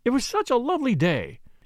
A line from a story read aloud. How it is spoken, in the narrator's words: she exclaimed